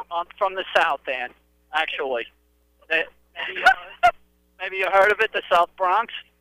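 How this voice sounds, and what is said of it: New York accent. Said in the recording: “that's a little New York accent, maybe”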